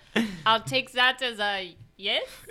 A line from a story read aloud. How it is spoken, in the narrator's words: He yells back